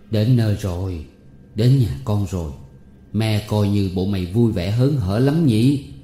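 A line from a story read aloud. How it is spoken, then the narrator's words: Sighing old woman. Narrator (Vietnamese): Bà Cả Bách thở dài thì nói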